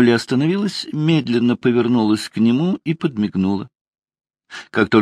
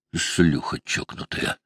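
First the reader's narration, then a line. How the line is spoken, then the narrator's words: Muttered whisper. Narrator (Russian): Фрэнк прошептал себе под нос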